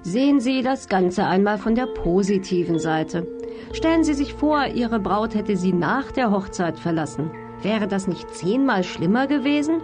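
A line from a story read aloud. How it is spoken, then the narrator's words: Calm. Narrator (German): sagte Amanda ganz ruhig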